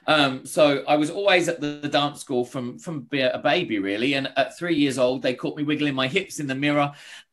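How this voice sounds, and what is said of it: English accent with Australian twang. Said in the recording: “the weird Australian twang I've got to my accent”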